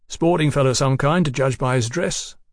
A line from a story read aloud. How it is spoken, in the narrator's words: the king said cheerfully